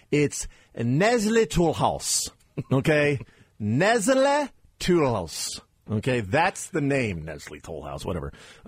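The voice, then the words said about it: Exaggerated French accent pronunciation. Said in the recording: “You Americans butcher the French accent all the time.”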